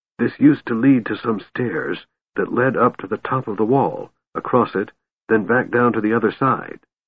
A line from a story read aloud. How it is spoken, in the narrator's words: whispered Tasselhoff